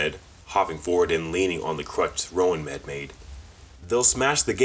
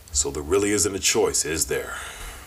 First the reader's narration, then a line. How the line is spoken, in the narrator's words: Wraith sighed in resignation